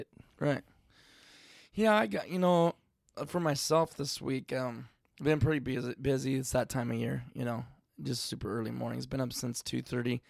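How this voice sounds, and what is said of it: Hoarse, strained voice. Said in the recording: “I'm kind of losing my voice, too. Like, if you guys can't tell”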